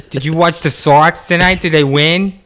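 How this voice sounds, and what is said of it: Bad put-on Boston accent. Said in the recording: “That's a bad accent. ... great impersonation. Bad accent.”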